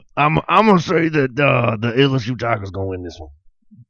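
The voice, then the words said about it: Impression of a college football coach. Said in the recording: “do an impersonation ... That's pretty good. ... the hardest guy in college football to do an impression of”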